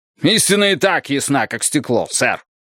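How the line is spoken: Snapping back. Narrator (Russian): огрызнулся Бидуэлл

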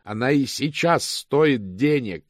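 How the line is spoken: Roaring. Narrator (Russian): взревел мокрец

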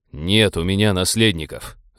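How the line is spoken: Growled. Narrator (Russian): рыкнул на нее капитан

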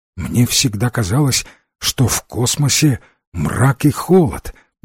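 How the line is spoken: Hesitant muttering. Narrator (Russian): нерешительно пробормотал он

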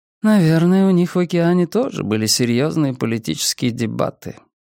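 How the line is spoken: Sleepy musing. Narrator (Russian): сонно предположила Надя

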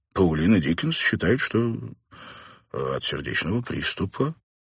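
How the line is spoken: Uncertain. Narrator (Russian): неуверенно произнес Каллахан

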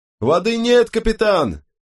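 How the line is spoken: Highly excited yelling. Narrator (Russian): провопил голос столь возбужденный

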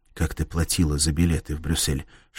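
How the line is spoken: Whispering. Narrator (Russian): шепнул он Кларе

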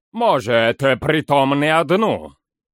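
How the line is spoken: Grumbling. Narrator (Russian): Проворчал Фарнак

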